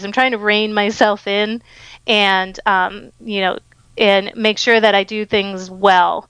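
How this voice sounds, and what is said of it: Over-excited, eager voice. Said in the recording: “I am like over excited ... you probably can hear it in my voice”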